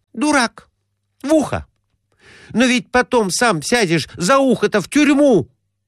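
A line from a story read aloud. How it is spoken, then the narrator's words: Exclaimed. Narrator (Russian): воскликнула она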